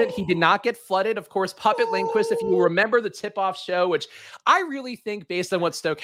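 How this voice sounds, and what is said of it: Usual voice. Nothing is said of it.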